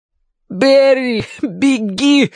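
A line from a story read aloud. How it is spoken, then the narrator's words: Exhausted desperate shout. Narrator (Russian): из последних сил крикнул Мэтью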